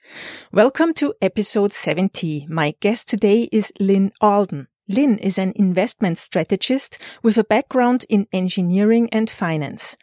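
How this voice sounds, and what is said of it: German accent. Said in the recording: “your favorite Bitcoin host with the German accent.”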